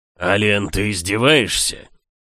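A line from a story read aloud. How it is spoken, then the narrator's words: Growl then low hiss. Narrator (Russian): рыкнул герцог, а затем зашипел, понизив голос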